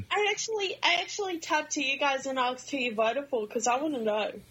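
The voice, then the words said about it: Australian accent. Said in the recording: “Great accent.”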